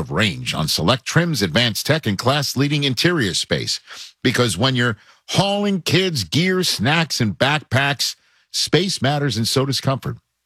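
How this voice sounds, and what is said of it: New York accent. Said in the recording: “My New York accent just came back out there when I said interior.”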